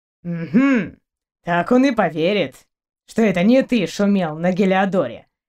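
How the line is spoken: Skeptical snort. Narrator (Russian): хмыкнул Торн

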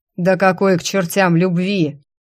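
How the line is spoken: Demon's angry growl. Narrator (Russian): злобно рыкнул демонюга

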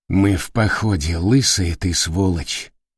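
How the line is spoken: Barely audible sad mutter. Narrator (Russian): едва слышно пробормотал Капурчик, грустно улыбаясь

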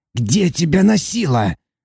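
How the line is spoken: Shout. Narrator (Russian): крикнул толстяк

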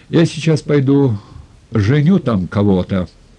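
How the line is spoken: Angry bass voice. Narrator (Russian): сказал бас, уже сердито

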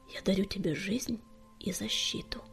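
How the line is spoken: Quiet. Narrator (Russian): тихо сказала Чернобурка

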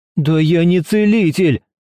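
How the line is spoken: Exclaiming. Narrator (Russian): воскликнул студент

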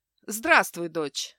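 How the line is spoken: Calm, quietly glad. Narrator (Russian): спокойно произнес Стефан, но по глазам видно, он скучал и рад, что с ней все в порядке

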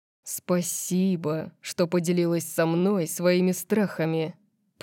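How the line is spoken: Purring voice. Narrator (Russian): промурлыкал

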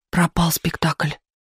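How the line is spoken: Muttering. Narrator (Russian): пробормотал многоопытный выпускающий

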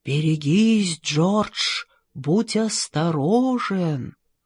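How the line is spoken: Sighing whisper of wind. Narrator (Russian): ветер в ветвях над головой вздыхал и нашептывал

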